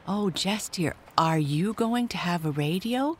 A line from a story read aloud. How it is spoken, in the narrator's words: cried Nell